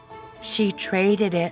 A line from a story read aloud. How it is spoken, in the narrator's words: Roddy said quietly